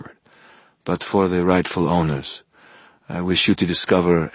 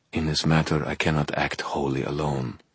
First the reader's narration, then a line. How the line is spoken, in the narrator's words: she murmured